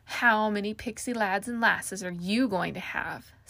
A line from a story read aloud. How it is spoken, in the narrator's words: Cynthia sneered